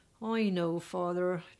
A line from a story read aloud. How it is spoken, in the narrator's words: Tracy said in a weary voice